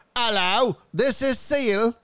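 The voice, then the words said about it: Poor put-on Australian accent. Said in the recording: “Okay, that was, oh God, Australian shit... I don't do good accents.”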